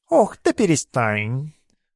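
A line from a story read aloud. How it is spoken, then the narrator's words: Angry cat hiss. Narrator (Russian): тот злобно зашипел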